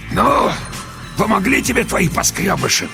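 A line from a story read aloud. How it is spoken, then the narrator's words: Hoarse wheezing. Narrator (Russian): продолжал меж тем хрипеть человек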